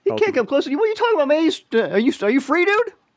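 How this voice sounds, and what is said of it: New York accent. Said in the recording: “I like your accent. ... All over New York, man. ... Brooklyn, Staten Island, Queens.”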